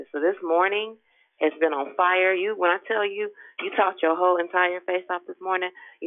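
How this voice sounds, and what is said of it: Hoarse voice. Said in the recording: “I'm hoarse from walking around through the house screaming.”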